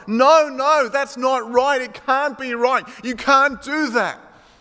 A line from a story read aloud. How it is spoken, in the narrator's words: they all yelled